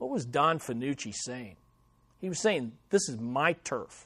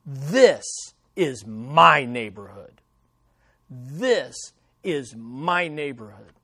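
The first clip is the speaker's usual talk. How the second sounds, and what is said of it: Snarled Italian accent. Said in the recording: “I'm just going to slip into a little Italian accent... he snarls”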